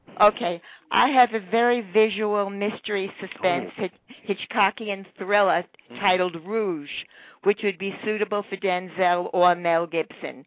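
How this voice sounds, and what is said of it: Nasal New York accent. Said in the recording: “can you hear my nasal accent?”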